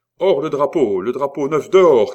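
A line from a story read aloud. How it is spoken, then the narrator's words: Quavering shout. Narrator (French): cria-t-il d'une voix chevrotante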